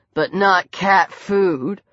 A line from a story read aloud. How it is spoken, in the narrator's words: Lucian drawled